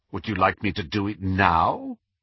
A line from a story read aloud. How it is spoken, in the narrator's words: asked Snape, his voice heavy with irony